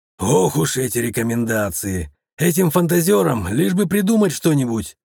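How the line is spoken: Grumbling man. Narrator (Russian): проворчал мужчина

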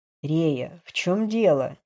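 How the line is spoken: Low-voiced question. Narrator (Russian): низким голосом спросил Бран

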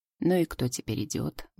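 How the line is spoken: Mumbled. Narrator (Russian): бормотал он

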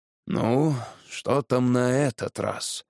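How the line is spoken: Sighing. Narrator (Russian): вздохнул генерал Шерман

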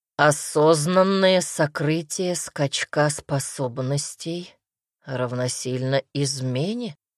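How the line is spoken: Gloomy reply. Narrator (Russian): мрачно отозвался Дамер

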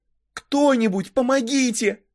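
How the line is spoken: Shouting. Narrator (Russian): закричала я

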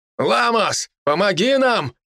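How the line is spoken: Shouted together. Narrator (Russian): крикнули братья

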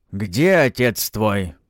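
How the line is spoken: Furious growl. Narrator (Russian): прорычал, словно разъяренный зверь, гадята

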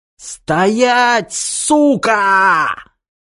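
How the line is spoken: Shrill bold shriek. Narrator (Russian): К загипнотизированному фашисту вернулась не только смелость, но и способность визжать

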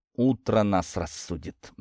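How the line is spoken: Grim hateful whisper. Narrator (Russian): мрачно прошептал под нос юноша с раздражением и ненавистью

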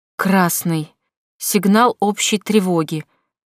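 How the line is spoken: Lifeless voice. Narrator (Russian): сказал Нор безжизненным голосом

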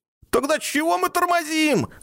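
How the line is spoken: Yelled. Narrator (Russian): завопил Ник

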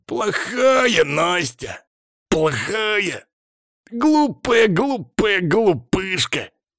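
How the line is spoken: Deep bison-like growl. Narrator (Russian): рычал красавка голосом зубра

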